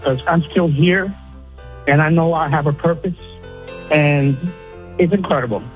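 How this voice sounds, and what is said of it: Tearful, emotional voice. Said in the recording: “Now I'm getting a little emotional. I'm crying a little bit”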